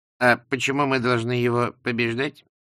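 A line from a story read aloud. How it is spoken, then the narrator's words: Reasoned question. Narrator (Russian): рассудительным тоном спросил Лузган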